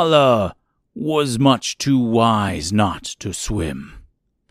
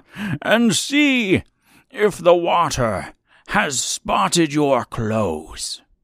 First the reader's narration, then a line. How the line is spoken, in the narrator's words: cried my grandfather